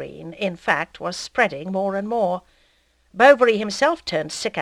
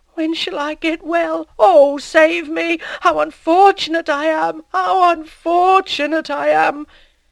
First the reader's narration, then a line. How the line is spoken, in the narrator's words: Hippolyte with eyes full of terror, sobbing